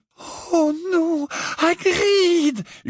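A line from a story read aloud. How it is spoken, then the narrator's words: Groaning. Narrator (French): gémit Hermione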